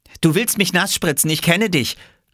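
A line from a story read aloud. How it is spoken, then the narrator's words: Calling out. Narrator (German): rief Jule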